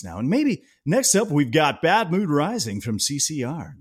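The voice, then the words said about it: Radio DJ announcer voice. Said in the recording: “putting on my DJ voice”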